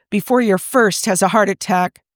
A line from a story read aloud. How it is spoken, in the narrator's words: Chris snaps